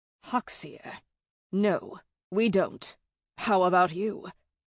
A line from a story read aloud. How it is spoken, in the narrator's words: Grinwald asked with a snort